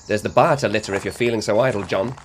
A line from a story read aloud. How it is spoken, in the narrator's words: told him sharply